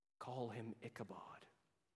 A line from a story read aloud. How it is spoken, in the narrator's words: she whispers